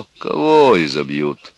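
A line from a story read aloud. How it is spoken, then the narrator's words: Calm deep bass. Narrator (Russian): спокойно басил Петро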